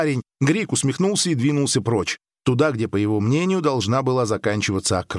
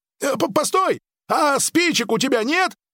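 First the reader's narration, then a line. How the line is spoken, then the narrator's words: Yelled after someone. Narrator (Russian): завопил вслед парень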